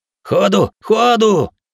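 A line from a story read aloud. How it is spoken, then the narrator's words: Hooligan's shout. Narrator (Russian): крикнул хулиган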